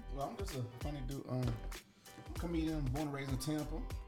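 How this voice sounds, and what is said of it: New York accent. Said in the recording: “New York accent”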